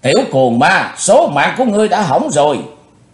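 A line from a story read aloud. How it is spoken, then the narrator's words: Woman's furious roar. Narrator (Vietnamese): bà ta càng thêm giận dữ rống to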